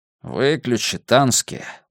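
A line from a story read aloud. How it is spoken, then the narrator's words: Grumbled mutter. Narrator (Russian): буркнул Миртон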